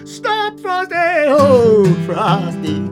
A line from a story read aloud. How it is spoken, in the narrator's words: he heard him holler